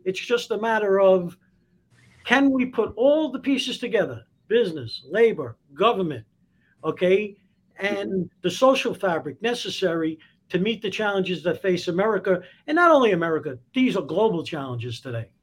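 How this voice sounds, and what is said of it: Speaker's own noticeable accent. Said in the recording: “You just love my accent.”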